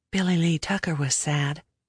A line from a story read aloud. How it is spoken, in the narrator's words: I whispered